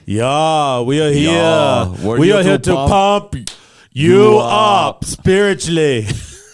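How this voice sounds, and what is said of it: Imitates another person's voice. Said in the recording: “my Arnold Schwarzenegger impersonation.”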